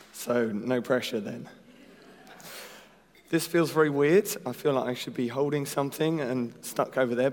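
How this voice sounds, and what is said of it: Hoarse, failing voice. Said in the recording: “I am losing my voice,”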